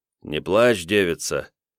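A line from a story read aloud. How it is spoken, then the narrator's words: Soft, smiling. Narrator (Russian): мягко улыбнулся жрец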